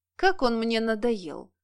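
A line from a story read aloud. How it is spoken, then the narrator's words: Disappointed sigh. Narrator (Russian): разочарованно вздохнул Ганс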